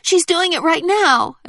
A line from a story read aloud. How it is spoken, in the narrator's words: Amelia cried